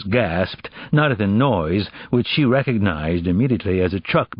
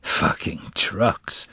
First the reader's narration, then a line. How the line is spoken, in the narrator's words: he muttered